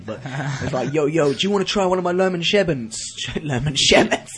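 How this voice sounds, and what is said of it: Put-on accent. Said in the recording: “I don't even know why I'm doing that accent”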